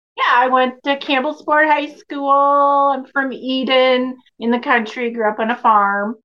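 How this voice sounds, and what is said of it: Wisconsin accent. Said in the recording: “I can still detect a Wisconsin accent.”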